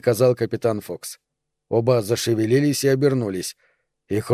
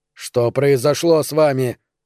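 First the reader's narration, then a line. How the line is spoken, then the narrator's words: Horrified shout. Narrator (Russian): закричал капитан Фокс в ужасе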